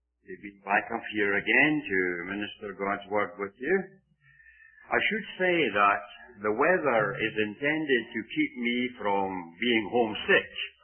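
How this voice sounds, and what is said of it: Scottish accent. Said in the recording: “my accent gets worse ... us Scotsmen”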